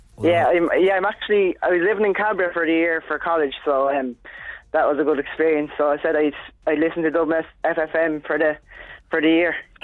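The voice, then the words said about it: Irish Kilkenny accent. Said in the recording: “I can hear the Kilkenny accent, all right.”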